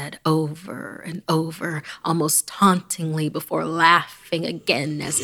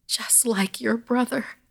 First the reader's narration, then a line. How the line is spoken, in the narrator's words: Gran sobbed